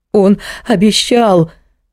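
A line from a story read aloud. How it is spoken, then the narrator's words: Sobbing woman. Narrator (Russian): Между всхлипываниями проговорила женщина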